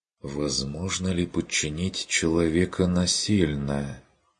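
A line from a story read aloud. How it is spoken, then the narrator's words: Thoughtful, uncertain. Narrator (Russian): Повторила Адельхайда задумчиво и неуверенно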